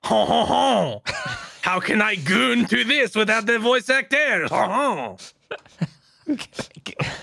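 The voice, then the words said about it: Fake French accent. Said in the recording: “in a fake French accent”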